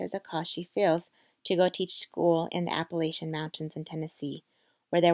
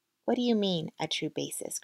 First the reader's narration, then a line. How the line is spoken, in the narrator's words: Christy asked